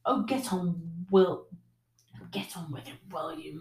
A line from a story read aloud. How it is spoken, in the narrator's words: muttered Spittleworth, his long nose still buried in the handkerchief